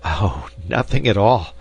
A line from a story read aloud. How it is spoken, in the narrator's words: panted Ben